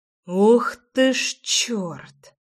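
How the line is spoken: Loud exhale. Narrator (Russian): Шумно выдохнул Ромка

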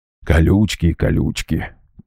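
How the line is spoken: Quiet grumble. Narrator (Russian): Тихо, так, чтоб не услышал шаман, проворчал Гера

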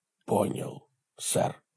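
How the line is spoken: Whispered. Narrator (Russian): прошептал Хорхе

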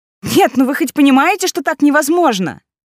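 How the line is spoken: Shouting in someone's face. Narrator (Russian): Я прокричала это прямо в лицо господину

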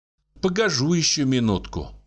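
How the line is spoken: Sigh. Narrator (Russian): вздохнула Агафья

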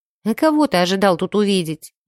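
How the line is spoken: Gloomy, annoyed. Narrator (Russian): мрачно произнесла я, жутко раздосадованная

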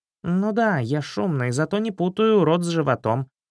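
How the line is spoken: Angry hungry snort. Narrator (Russian): сердито фыркнул голодный Златобров

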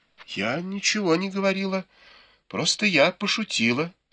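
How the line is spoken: Timid reply. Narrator (Russian): робко произнесла в ответ Цзыцзюань

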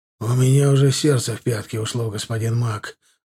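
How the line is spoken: Breathless exhale. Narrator (Russian): выдохнул он

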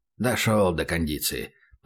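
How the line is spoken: Mutter. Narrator (Russian): пробормотал сбоку Хасан

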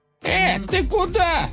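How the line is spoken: Cliff's yell. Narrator (Russian): завопил утес

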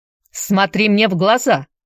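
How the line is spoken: Sharp shout. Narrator (Russian): прикрикнул священник

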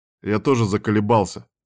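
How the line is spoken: Grumbling. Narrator (Russian): ворчал Кастер

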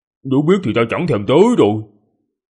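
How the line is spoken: Angry. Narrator (Vietnamese): Trần Bì Bì tức giận mà nói

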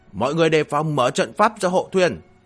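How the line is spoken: Loud shout. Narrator (Vietnamese): hét lớn

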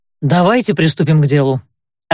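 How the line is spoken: Irritated interruption. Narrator (Russian): раздраженно оборвал его капитан

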